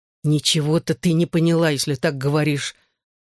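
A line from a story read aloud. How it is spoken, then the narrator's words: Angry objection. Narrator (Russian): сердито возразил он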